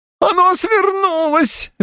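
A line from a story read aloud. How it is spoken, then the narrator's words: Yelling. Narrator (Russian): вопил он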